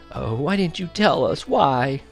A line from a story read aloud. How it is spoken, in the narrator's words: I heard her say in a quavering voice